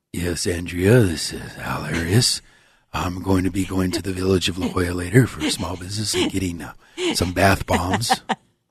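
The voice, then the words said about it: Smooth cool impersonation of radio host. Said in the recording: “the silky smooth Al ... dying to impersonate you ... The cool, always cool and collective Al there is.”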